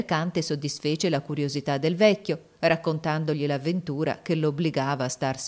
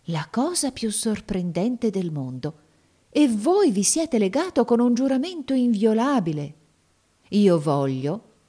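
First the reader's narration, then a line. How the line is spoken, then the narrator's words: Exclaiming. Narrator (Italian): esclamò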